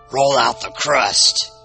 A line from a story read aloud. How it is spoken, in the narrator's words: he growled